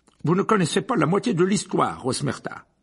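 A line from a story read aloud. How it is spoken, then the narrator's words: Abrupt tone. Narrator (French): dit Fudge d'un ton abrupt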